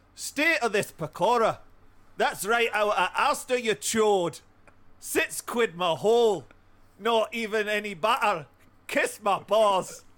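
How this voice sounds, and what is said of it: Put-on accent. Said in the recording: “I was listening to your accent ... I'll do it with a non-accent”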